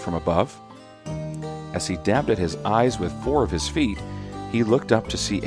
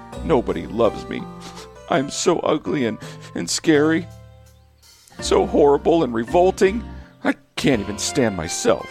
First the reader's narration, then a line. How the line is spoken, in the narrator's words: sobbed through a burst of tiny tears